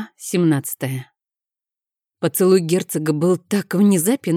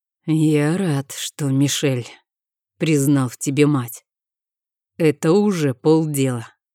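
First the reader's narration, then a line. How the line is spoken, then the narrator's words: Muffled declaration. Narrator (Russian): заявил глухо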